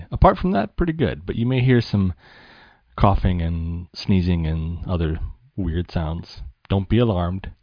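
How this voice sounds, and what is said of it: Voice congested from a cold. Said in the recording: “I have a bit of a cold, honestly.”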